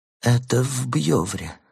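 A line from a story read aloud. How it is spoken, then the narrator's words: Muttering. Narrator (Russian): забормотал он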